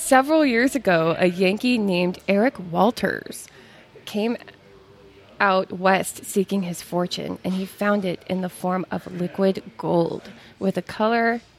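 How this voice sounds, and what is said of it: Put-on American Western accent. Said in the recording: “do it in your best Western accent ... My Western always turns Asian.”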